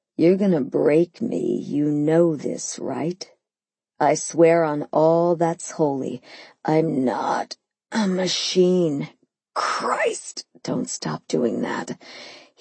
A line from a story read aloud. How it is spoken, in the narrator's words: he groaned